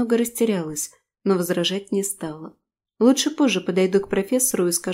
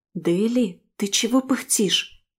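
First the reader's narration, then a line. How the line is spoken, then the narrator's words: Whispered question. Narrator (Russian): шепотом спросила Мирна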